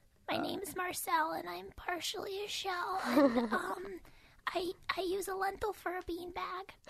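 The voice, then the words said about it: Quirky small character voice. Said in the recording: “I have to do a Marcel thing ... That's like spot on ... She does a quirky voice”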